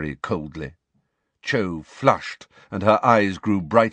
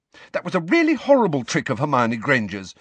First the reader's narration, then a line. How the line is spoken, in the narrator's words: said Cho fiercely